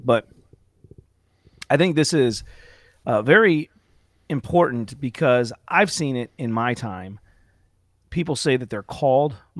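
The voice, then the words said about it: Raspy, strained voice. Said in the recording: “excuse me, my voice... did some preaching outside, no amplification, and so my voice is a little raspy... I have to constantly take breaks to kind of clear my voice a bit”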